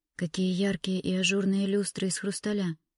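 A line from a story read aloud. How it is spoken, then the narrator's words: Whisper. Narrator (Russian): прошептала она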